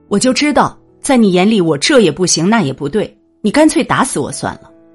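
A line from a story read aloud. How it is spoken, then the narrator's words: Angry yelling child. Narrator (Chinese): 他竟然怒气冲冲的朝我吼道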